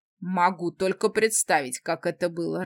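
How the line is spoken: Laughing. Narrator (Russian): рассмеялся эльф

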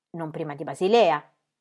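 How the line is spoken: Menacing, quarrelsome tone. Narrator (Italian): aggiunse in tono minaccioso, quasi come se volesse attaccar briga

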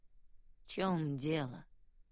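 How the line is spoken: Heavy sigh. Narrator (Russian): тяжело вздохнул он

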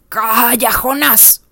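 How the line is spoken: Strange-voiced command. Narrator (Spanish): ordenó con una voz extraña

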